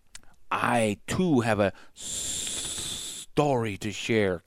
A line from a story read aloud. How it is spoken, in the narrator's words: Kaa hissed